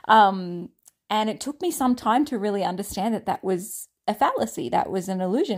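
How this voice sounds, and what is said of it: Australian accent. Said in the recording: “my Australian accent was so different ... my Australian accent”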